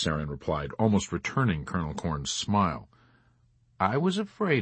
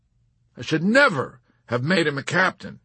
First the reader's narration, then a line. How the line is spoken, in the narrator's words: Colonel Cathcart exclaimed bitterly